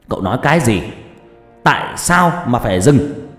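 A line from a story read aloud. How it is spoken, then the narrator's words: Shout. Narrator (Vietnamese): tiếng quát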